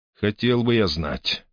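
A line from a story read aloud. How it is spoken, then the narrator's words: Skeptical snort. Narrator (Russian): хмыкнул Грей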